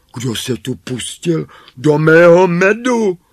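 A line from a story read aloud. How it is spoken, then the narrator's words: Cried out. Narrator (Czech): vzkřikl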